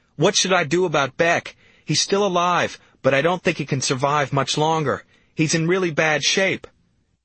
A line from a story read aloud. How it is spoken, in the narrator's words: I begged in a hysterical voice